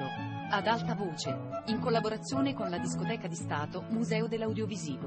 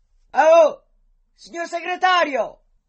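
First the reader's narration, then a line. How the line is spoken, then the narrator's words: Shouted. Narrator (Italian): gli gridò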